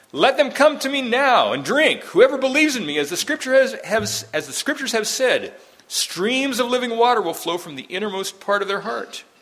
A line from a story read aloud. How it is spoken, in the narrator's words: cried